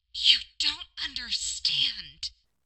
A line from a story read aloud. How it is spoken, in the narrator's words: Marinette hissed